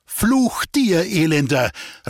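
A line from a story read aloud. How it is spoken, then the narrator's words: Sudden call. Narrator (German): rief plötzlich eine Stimme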